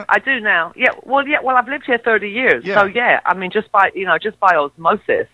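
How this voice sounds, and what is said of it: Mid-Atlantic British-American accent. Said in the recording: “I do realize that I'm kind of mid-Atlantic now ... they yell at me that I sound American ... are you Australian?”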